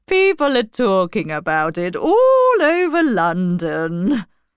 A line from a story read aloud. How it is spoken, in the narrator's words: laughed Mrs